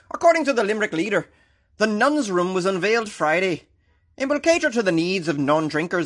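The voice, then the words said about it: Put-on Irish accent. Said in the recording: “That was pretty good though, right? My Irish accent.”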